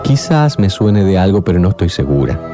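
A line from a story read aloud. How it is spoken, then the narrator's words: Plain. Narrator (Spanish): dijo Alicia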